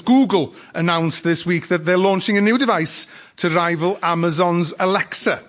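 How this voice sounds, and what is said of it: North Wales accent. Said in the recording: “This, by the way, is a North Wales accent, which you don't often hear outside Wales”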